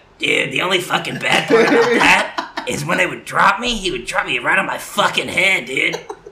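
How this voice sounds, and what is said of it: Impression of Steve-O. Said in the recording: “do his voice again ... that was a perfect impression.”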